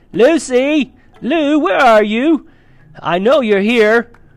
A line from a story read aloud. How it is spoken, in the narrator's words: He even shouted out